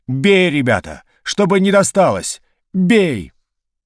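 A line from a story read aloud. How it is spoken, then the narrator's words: Shouting. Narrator (Russian): поручик крикнул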